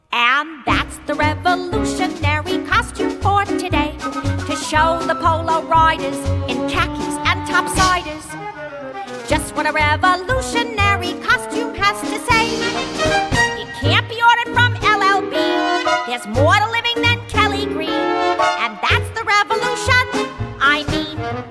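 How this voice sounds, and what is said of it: Grey Gardens character accent. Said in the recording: “Christine Ebersole from Grey Gardens. That accent.”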